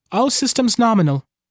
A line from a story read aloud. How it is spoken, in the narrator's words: the box answers in that empty voice